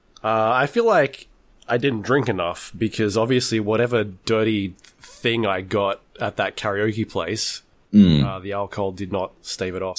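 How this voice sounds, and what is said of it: Rough, strained voice from illness. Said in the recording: “My voice is like falling apart from the start already... I've been sick the last couple of days”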